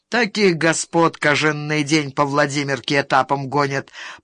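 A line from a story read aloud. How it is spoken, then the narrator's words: Grumbling. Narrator (Russian): проворчал Верзила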